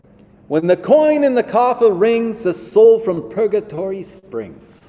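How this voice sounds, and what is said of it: Put-on New York-style accent. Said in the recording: “I don't know if he was from New York or whatever accent that was.”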